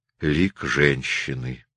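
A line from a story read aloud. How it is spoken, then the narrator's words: Quiet. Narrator (Russian): Кто-то тихо сказал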